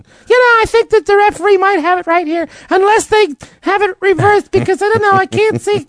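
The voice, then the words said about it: Imitates another person's voice. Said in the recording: “That's my Phil Simms impression.”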